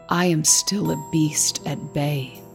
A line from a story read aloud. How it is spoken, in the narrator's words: he said, in a low, hoarse voice